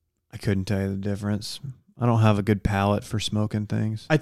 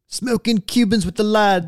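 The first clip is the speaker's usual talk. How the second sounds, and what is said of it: Poor put-on British accent. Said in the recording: “That's not even a good British accent. ... That's my street soccer British accent. ... That's not even good.”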